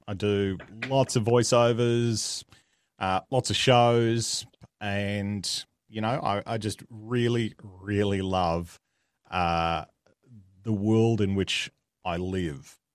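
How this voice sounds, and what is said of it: Australian accent. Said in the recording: “I am Australian, if the accent didn't give it away.”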